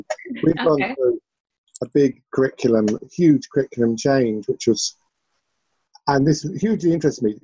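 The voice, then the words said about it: English accent. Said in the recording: “despite my English accent”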